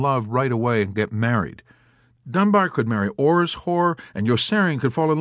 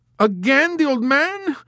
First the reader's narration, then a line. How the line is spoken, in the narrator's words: cried the girl in wailing confusion